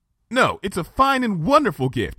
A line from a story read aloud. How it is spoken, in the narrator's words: I said in a desperately reassuring fashion